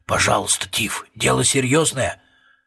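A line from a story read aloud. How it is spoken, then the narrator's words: Whisper. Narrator (Russian): Сержант прошептал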